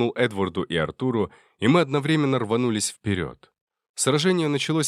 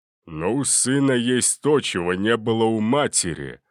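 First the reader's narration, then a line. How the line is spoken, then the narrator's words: Gruff. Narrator (Russian): грубо произнес Гелиос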